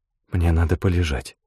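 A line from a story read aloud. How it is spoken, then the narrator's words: Whisper. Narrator (Russian): прошептала она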